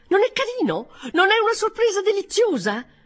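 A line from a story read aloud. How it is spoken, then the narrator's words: Triumphant exclamation. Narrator (Italian): con aria di trionfo esclamando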